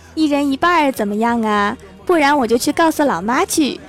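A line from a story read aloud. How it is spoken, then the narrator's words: Sly, mischievous. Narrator (Chinese): 我一脸坏笑的说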